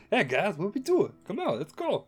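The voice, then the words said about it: John Travolta and Bobcat mashup voice. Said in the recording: “like a John Travolta / Bobcat ... a little bit of a nice amalgam there ... that's ... new accent ... Almost sounds like the Steve Brule from what's his name? ... John C. Reilly”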